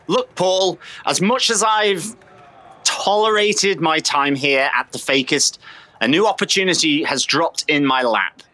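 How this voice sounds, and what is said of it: British accent. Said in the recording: “A British person is speaking ... my accent”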